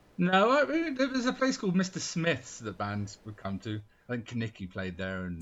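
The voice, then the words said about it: English accent, from Dorset. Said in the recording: “I'm not German. ... You can tell by the accent. Yeah. The giveaway. ... I'm from Dorset”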